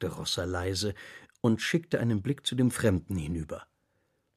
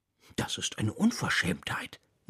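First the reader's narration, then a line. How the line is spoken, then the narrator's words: Muttering. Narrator (German): murmelte King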